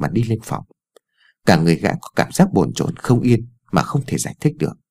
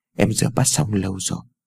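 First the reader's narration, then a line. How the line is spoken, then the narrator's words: Gentle speech. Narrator (Vietnamese): Ái Dương vẻ dịu dàng nói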